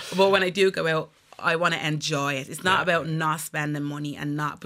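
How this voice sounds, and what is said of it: Warm rich Caribbean-Dublin accent. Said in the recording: “unique, rich, warm Caribbean Dublin accent”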